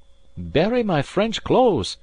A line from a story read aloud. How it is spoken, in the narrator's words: cried Alan